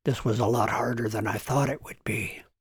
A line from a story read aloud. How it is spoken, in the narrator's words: whispered Dr